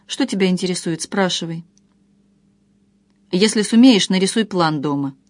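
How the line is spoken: Quiet question. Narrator (Russian): молча тихо спросила

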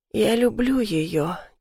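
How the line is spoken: Quiet. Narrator (Russian): тихо говорит

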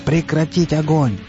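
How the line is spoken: Yelling. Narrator (Russian): заорал упавший на пол Ожог

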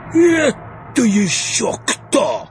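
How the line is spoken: Barked. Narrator (Russian): рявкнуло его сиятельство

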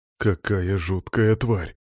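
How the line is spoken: Grumbling. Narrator (Russian): буркнул Колян

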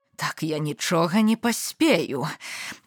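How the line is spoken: Moaning. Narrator (Belarusian): прастагнала балотніца

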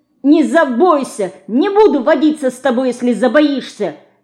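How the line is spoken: Angry shout. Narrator (Russian): сердито кричит Динка

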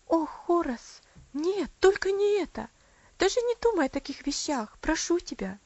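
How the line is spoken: Tearful exclamation. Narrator (Russian): воскликнула Аделаид со слезами на глазах

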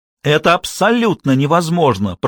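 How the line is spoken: Shouted. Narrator (Russian): прокричала Шарлотта

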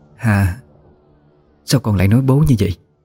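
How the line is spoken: Sudden trembling female voice. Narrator (Vietnamese): Bất chợt, cô cất lên giọng nói run rẩy của mình

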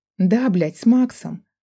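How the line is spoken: Sharp snapping retort. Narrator (Russian): огрызнулась она

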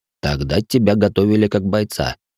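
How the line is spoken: Snorting mage. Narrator (Russian): хмыкнул маг

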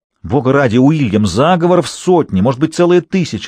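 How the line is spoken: Yelled. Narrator (Russian): завопил Уолсингем

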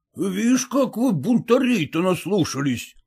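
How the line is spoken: Exclaiming. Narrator (Russian): воскликнул Зваров

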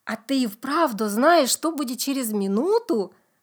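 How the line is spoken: Plain. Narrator (Russian): спросила мама

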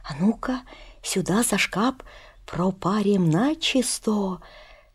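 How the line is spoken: Anxious whisper. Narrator (Russian): Горкин указывает тревожным шепотком

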